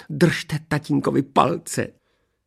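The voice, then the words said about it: Excited trembling whisper. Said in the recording (Czech): “Šeptala paní Majerová rozechvíle”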